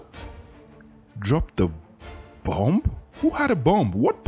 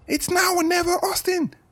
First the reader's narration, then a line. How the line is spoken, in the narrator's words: Dozie yelled